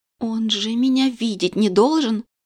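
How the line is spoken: Frightened whisper behind hands. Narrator (Russian): Не отнимая дрожащие руки от губ, испуганно прошептала я

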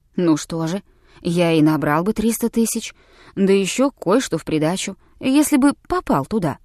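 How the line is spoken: Calm old man. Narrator (Russian): спокойно ответил старик

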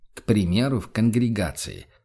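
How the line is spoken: Prompting. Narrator (Russian): подсказал великий магистр

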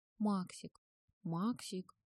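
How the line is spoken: Soft indistinct purring. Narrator (Russian): слышалось из угла тихое невнятное мурлыканье

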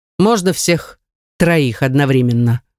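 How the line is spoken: Amused snort. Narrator (Russian): Хмыкнул

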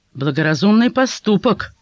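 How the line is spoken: Unknown voice. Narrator (Russian): услышал он чей-то голос

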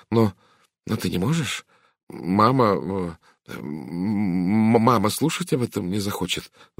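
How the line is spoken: Stammering mutter. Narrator (Russian): запинаясь, пробормотал он

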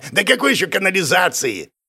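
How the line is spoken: Goblin chuckling. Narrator (Russian): хохотнул гоблин

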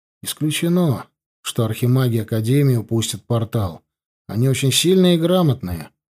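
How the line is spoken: Calm voice. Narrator (Russian): сказал я спокойно

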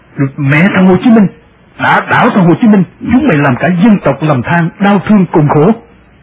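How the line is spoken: Furious roar. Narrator (Vietnamese): quốc hận ngập trời, tôi gầm lên

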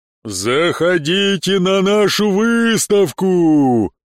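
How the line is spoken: Booming samurai. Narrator (Russian): Прогремел самурай

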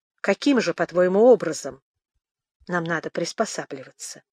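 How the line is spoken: Calm question. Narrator (Russian): спросила она спокойно

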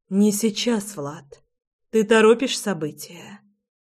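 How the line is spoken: Breathless exhale. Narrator (Russian): выдохнула я

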